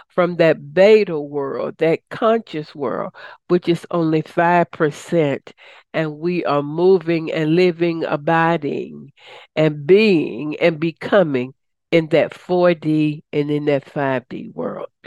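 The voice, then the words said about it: Slightly raspy voice. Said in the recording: “I was a little raspy. I coughed a little bit”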